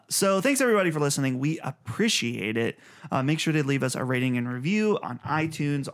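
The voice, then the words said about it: Slightly raspy, strained voice. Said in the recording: “I feel like I'm losing my voice slightly ... You kind of sound a little raspier than normal.”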